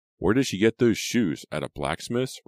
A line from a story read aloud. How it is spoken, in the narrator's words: Riva asked herself, chuckling